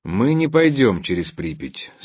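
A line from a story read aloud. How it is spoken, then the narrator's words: Calm. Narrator (Russian): спокойно повторил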